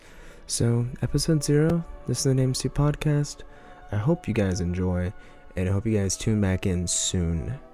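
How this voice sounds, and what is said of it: Strained, sore-throated low-energy voice. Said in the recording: “This one's really short and low energy because, again, my fucking throat is eviscerated right now.”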